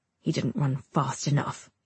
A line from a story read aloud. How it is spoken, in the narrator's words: East mutters